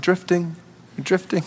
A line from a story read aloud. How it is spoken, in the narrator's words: And my dad would just sit there quietly beside me saying